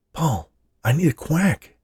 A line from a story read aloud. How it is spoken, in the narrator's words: whispered Scott